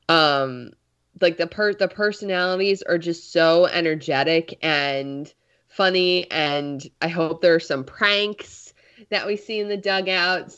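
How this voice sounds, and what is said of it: Congested, slightly odd-sounding voice. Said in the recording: “my voice sounds a little weird right now. I'm a bit congested.”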